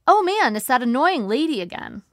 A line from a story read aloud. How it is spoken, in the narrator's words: I said brightly, trying to defuse the situation